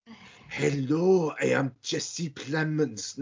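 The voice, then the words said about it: Attempted German accent sounding Welsh. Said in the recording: “doing a German accent. ... You went full blow Welsh then.”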